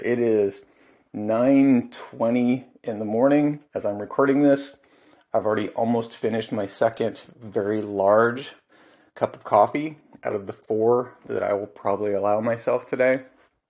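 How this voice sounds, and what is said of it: Tired-sounding voice. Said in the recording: “I'm just really tired, and you can probably tell from my voice that I am pretty tired”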